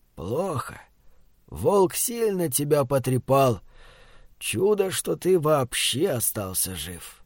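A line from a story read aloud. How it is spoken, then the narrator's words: Slow, heavy sigh. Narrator (Russian): лицо деда посерело, и он, глубоко и шумно вздохнув, медленно произнес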